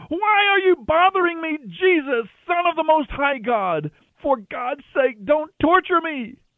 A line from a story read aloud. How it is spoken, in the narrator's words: He gave a terrible scream, shrieking